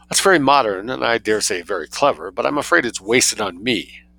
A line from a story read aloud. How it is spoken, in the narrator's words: she observed coldly